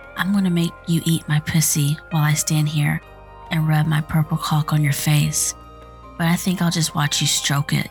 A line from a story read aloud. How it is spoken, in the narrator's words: Yvonne said